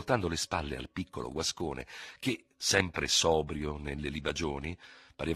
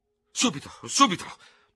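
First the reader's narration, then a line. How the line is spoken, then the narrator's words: Stammering, beside himself. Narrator (Italian): balbettava Ferraud fuori di sé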